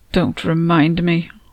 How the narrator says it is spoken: I mumbled

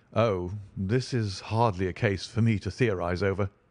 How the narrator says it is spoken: said Holmes dryly

